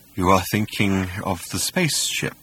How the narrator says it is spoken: he sighed

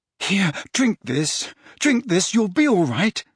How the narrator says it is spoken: said Harry desperately

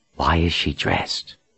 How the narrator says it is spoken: Richard leaned toward Verdine and whispered

